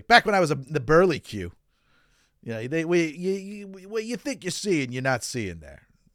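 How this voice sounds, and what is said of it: Imitation of his grandmother's voice. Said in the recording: “I'm trying to do her voice now. I can't really.”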